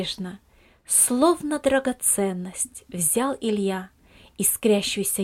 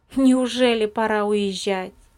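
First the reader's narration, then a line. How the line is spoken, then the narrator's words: Plain. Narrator (Russian): спросил Виталик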